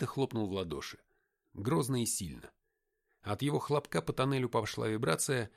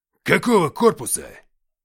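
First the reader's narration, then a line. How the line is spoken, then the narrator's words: Barked. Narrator (Russian): рявкнул Уфимцев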